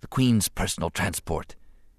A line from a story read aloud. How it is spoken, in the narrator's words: he whispered to the Jedi Master